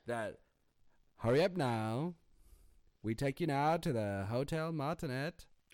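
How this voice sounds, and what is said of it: Old-timey transatlantic drawl. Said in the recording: “that transatlantic drawl ... talking like an old timey”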